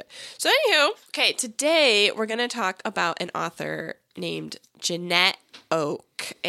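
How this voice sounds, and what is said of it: Sick, under-the-weather voice. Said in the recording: “you sound a little under the weather ... I have COVID ... if my voice sounds annoying, blame COVID”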